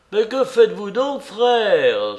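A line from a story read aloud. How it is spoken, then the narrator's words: Exclaiming. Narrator (French): s'écria Ivan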